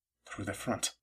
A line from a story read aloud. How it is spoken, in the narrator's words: Caleb muttered, uneasy